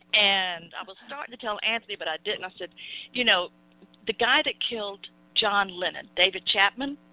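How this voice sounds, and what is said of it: Southern American accent. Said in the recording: “I know I have a Southern accent, but I don't talk like Scarlett O'Hara”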